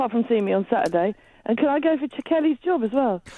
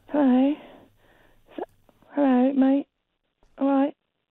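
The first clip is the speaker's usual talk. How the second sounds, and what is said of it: Imitates another person's voice. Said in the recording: “good Kelly impression”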